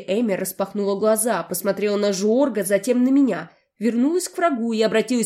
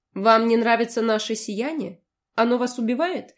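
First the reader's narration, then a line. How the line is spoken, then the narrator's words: Completely calm question. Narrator (Russian): совершенно спокойным тоном спросила императрица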